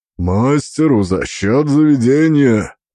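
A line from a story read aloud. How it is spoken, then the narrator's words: Booming rumble. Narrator (Russian): прогудел он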